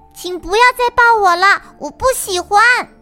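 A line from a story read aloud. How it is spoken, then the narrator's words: Loud. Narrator (Chinese): 小花鹿就大声地说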